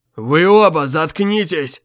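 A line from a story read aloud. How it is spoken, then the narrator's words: Roaring. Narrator (Russian): взревел Морис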